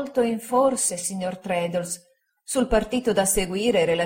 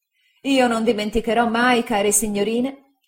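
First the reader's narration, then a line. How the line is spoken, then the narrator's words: Relieved exclamation. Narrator (Italian): esclamai sollevato da un peso immenso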